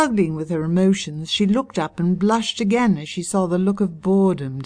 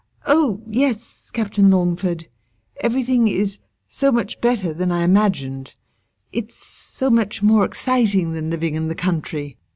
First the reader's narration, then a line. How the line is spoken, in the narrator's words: Wishing that she could think of some witty rejoinder, all Helene was able to stammer breathlessly was